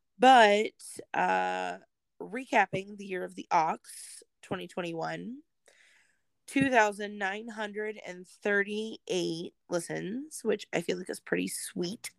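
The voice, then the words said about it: Hoarse voice. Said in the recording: “I got this barking seal-ish cough yesterday ... why my voice is kind of hoarse today”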